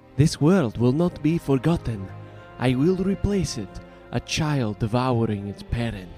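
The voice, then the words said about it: Deliberately poor character voice impression. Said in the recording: “my terrible impression”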